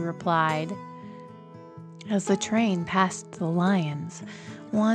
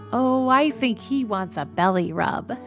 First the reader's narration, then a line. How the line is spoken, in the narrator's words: Emily said, laughing